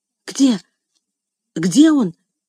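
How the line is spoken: Confused muttering. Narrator (Russian): растерянно забормотала она

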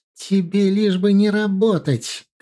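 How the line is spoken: Shouting mother. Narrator (Russian): кричала мать

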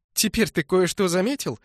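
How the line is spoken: Approving laugh. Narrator (Russian): засмеялась она одобрительно

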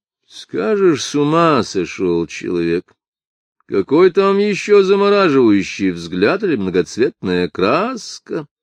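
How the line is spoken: Worried grumbling. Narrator (Russian): заворчал траппер, начиная уже беспокоиться, что его отряд так долго стоит на открытом месте

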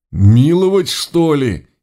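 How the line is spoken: Near-tearful howl. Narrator (Russian): Едва ли не со слезами взвыл толстяк Бодров

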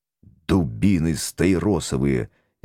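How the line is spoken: Restrained growl. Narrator (Russian): сдержанно прорычал я

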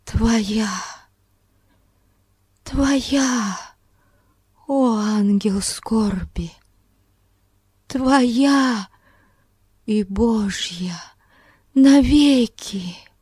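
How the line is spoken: Broken whisper. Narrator (Russian): она прошептала прерывающимся голосом

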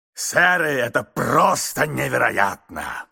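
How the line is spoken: Booming shout. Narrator (Russian): кричал он зычным голосом

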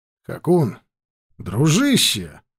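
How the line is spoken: Joyful. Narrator (Russian): радостно сказал я

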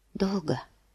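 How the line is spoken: Whispered. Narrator (Russian): прошептала она

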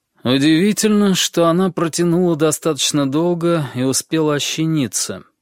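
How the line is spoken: Grim voice. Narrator (Russian): сказал он мрачным голосом

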